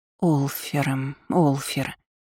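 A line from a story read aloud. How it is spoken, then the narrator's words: Muttering. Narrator (Russian): бормотала я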